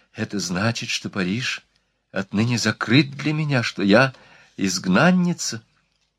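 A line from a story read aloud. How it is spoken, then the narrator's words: Choked whisper. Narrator (Russian): Что-то сжало горло Марианне, и она с трудом прошептала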